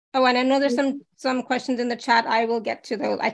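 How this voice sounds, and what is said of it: Hoarse, strained voice. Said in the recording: “I'm losing my voice today.”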